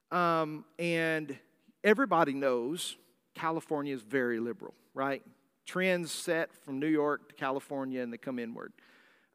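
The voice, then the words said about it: Southern drawl accent. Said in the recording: “I speak with a southern drawl accent”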